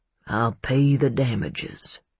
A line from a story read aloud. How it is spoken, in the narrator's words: Jay muttered